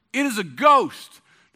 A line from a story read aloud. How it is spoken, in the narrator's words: In their fear, they cried out